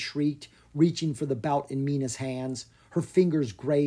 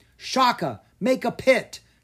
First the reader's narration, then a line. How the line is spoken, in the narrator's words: Caspar cried